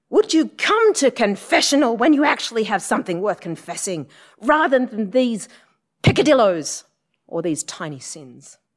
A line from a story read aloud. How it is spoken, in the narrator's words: had really had enough, and he just jumped up and yelled